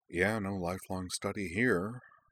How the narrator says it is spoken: Cora muttered

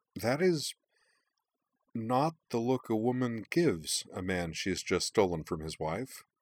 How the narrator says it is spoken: Emily said hesitantly

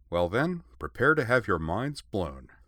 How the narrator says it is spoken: said Korra

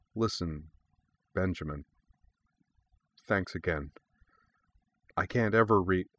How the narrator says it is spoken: she said in a quieter voice

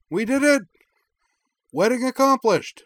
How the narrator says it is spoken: she cried

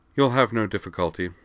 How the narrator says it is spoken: Dorothy replied flatly

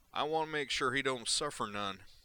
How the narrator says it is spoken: he added in an exaggerated hillbilly accent

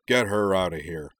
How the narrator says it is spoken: he growled

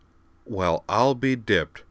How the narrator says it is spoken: said Griffin

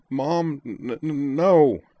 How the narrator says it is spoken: Caitlin stammered

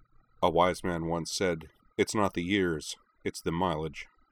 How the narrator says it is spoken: Sosuke replied calmly

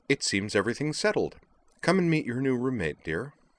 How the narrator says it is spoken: Miss Montaigne declared cheerfully

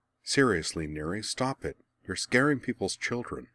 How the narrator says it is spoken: muttered

